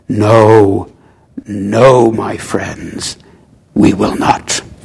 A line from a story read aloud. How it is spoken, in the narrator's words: He sighed